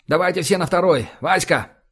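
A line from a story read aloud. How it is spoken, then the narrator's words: Shout. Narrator (Russian): крикнул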